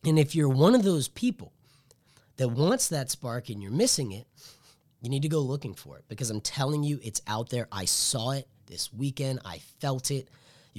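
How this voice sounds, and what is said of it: Excited, energetic voice. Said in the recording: “You can probably hear it in my voice. It's exciting.”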